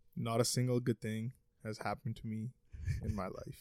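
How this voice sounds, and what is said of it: Deadpan flat delivery. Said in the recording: “deadpan, ... Straight face.”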